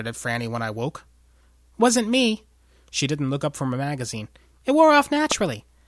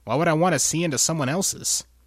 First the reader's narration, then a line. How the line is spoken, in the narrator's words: Franny grunted